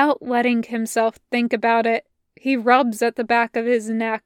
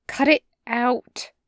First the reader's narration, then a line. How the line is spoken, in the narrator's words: Finally, he mutters